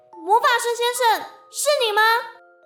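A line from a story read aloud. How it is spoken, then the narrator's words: Loud shout. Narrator (Chinese): 他往里面大喊一声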